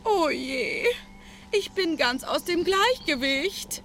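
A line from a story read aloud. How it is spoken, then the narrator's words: Wailing. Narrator (German): jammerte die eine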